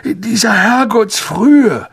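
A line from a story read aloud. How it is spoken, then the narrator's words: Croaking. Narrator (German): krächzte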